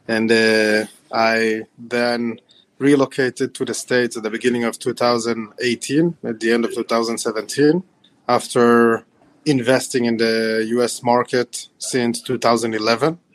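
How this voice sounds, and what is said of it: Mixed Ukrainian and Israeli accent. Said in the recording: “the accent is a combination of backgrounds. I was born in Ukraine, and I moved to Israel when I was 6 years old”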